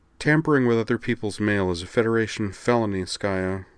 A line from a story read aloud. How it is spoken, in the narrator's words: she muttered without any energy